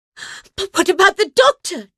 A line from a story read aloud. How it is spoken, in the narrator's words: Joe cried